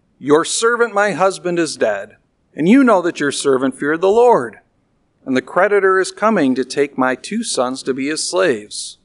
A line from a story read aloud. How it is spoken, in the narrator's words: A certain woman of the wives of the sons of the prophets cried out to Elisha, saying